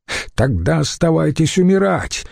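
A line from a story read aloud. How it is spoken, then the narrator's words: Shouted. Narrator (Russian): выкрикнул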